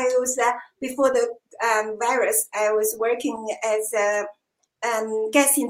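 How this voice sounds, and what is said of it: Usual voice. Nothing is said of it.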